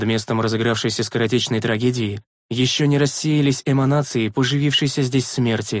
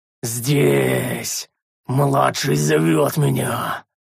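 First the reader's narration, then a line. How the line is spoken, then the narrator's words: Furious roar, prince. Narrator (Russian): принц бешено взревел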